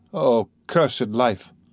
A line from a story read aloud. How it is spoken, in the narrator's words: Katerina Ivanova exclaimed in despair